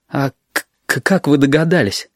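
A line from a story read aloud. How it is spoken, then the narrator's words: Stammering. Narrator (Russian): Арсен начал заикаться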